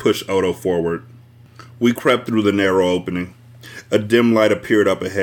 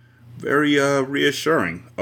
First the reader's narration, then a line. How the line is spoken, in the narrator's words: Odo swallowed uneasily